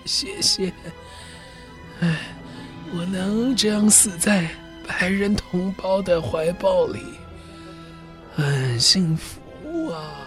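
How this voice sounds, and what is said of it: Very weak, faint voice. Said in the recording (Chinese): “用很衰弱的声音说”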